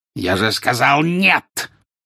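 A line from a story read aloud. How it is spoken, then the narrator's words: Harsh bark. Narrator (Russian): рявкнул жестоколицый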